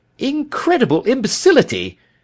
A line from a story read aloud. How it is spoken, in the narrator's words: he cried